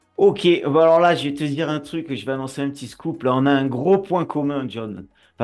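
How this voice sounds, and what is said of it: Southern French accent. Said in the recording (French): “tu entends mon accent, et moi, je suis du Sud”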